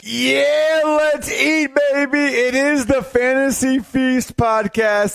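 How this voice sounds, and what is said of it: Excited, energetic voice. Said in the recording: “if you can't tell by my voice, I am beyond excited”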